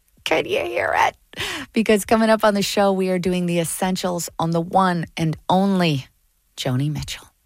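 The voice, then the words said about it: Excited, energetic voice. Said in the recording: “hear the excitement in my voice?”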